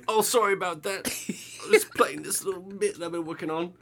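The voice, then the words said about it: Poor attempt at English accent. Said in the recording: “Oh god, I cannot do an English accent. ... pretty bad because you're very mid-Atlantic ... that sounds like George Plimpton.”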